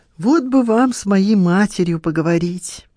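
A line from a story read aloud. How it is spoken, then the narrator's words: Sighing. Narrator (Russian): вздохнула Лиза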